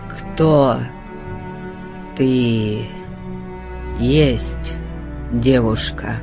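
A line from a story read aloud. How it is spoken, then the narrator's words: Slow halting question. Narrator (Russian): спросил он, медленно запинаясь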